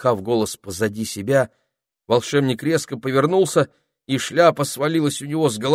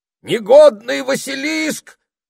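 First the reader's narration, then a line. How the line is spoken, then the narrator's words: Wild shouting wizard. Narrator (Russian): закричал волшебник, дико озираясь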